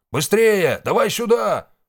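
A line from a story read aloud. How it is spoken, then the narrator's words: Shouted. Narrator (Russian): прокричал Валу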